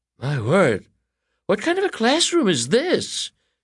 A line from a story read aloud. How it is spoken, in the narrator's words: She exclaimed